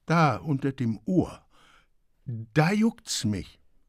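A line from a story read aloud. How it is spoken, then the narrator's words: Stammering. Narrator (German): stammelte sie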